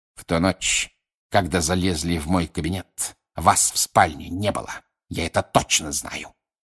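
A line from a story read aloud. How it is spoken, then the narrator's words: Snow hissing. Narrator (Russian): прошипел снег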